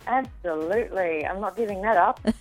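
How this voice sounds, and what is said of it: Australian accent. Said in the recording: “sounds Australian ... she is a true-blood Aussie”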